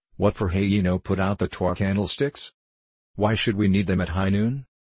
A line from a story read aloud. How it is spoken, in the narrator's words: she asked